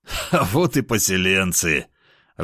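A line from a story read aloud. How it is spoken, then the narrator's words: Loud laughter. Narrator (Russian): расхохотался я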